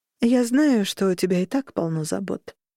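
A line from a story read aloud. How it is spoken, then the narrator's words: Sighed. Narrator (Russian): вздохнула миссис Роган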